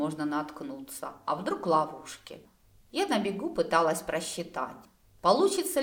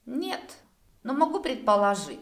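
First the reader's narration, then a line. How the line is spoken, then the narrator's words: Said with a snort. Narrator (Russian): хмыкнул Дер-Альтер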